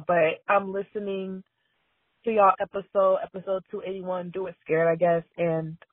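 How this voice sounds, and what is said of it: Voice sounds like a mess. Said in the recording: “I sound like a complete mess right now”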